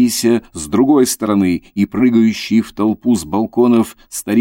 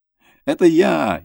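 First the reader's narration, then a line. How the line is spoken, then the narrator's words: Joyful shout. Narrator (Russian): закричал тут радостно Костенька Нистельрода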